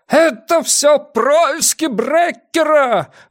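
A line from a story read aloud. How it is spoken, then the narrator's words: Yelling. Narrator (Russian): вопил Ван Эк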